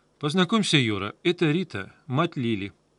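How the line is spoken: Dry, curt. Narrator (Russian): сухо сказал я

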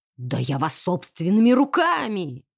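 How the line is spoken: Roaring. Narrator (Russian): взревел полковник

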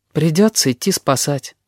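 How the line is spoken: Sigh. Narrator (Russian): вздохнул кузнечик

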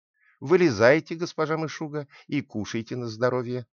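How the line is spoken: Plain. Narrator (Russian): сказала

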